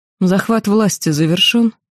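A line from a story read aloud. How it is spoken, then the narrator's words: Calm inquiry. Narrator (Russian): спокойно осведомилась я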